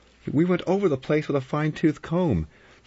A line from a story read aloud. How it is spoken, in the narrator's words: Vera said urgently